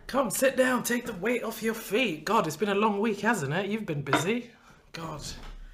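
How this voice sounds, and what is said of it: Smooth radio presenter voice. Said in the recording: “You already put in your radio voice.”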